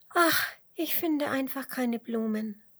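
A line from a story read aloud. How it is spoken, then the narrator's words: Small creature sighing. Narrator (German): seufzt die kleine Biene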